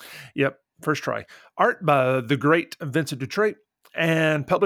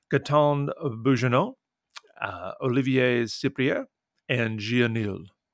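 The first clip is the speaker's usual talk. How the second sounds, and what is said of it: Put-on French accent. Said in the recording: “You like my French accent there?”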